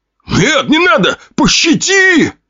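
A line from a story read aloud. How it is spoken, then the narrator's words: Desperate shout. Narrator (Russian): прокричал пузатый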